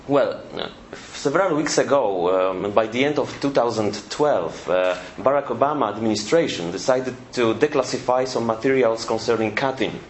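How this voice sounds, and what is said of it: Polish-accented English. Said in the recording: “some beautiful Polish English, so be patient about my accent.”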